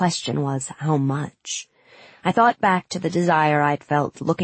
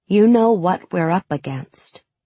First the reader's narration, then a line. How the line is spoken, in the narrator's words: I said